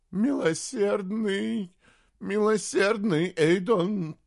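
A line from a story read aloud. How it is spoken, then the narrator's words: Groaned. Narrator (Russian): простонал Тайгер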